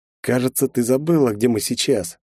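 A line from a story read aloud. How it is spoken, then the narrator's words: Wry snort in reply. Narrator (Russian): хмыкнул я в ответ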